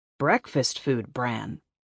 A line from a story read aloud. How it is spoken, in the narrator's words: the man answered coldly